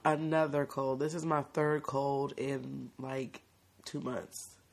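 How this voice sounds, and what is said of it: Hoarse, raspy voice. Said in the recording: “Excuse my hoarse, raspy voice. ... She caught a little cold.”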